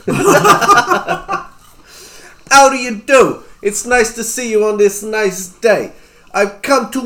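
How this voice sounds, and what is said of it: Exaggerated comic character accent. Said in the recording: “my fantastic and hilarious accent.”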